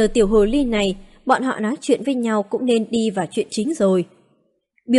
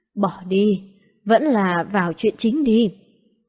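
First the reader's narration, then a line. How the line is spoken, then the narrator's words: Regretful sigh. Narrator (Vietnamese): Tông chủ Cửu Tiên Tông ngẩn cả người, một lúc sau mới thở dài than tiếc, nói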